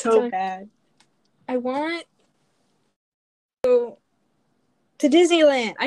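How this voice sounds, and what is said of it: Usual voice. Nothing is said of it.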